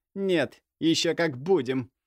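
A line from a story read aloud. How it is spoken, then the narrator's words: Through gritted teeth. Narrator (Russian): процедила Ксения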